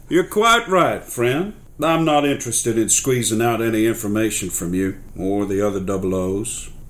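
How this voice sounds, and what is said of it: Character voice with Aussie accent slipping. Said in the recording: “His Aussie accent nearly slipped through then.”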